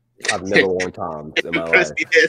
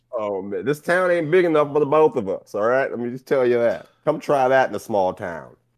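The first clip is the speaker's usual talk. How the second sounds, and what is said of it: Put-on cowboy accent. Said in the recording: “I'm working on my Cowboy Bob accent. I'll get it soon enough.”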